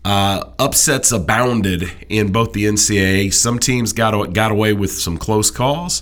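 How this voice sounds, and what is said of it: Deep congested voice from cold. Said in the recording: “you get a little more bass than usual in your voice ... That's not bass. That's mucus ... I've got a little bit of a cold”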